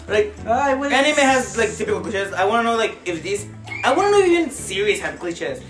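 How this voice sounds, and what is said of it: Non-native English accent. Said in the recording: “My accent is bad. Sorry, I have an accent.”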